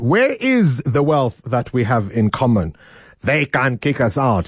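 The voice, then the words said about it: Poor imitation of another person's accent. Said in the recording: “I do a very bad Robert Mugabe accent”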